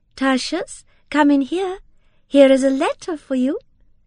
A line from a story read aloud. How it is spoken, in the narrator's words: she said in her lightest tones